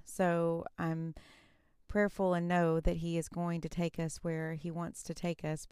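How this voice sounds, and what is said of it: Tired, exhausted-sounding voice. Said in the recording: “you can probably even hear it in my voice. I'm a little bit exhausted”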